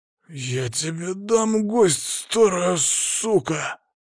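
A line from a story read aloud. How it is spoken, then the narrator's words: Angry hiss. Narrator (Russian): зло прошипел тот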